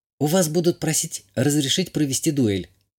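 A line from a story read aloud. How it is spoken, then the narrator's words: Whispered. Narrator (Russian): шепнула Азалия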